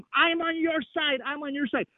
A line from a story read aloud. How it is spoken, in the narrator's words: I yelled at him